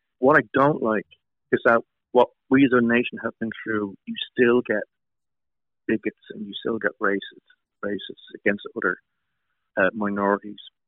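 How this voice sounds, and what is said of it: Irish accent. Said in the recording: “I was Irish... people heard my accent”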